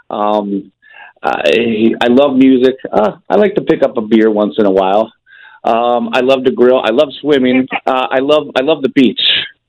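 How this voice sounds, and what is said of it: Regional American accent. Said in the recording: “your accent, which we like”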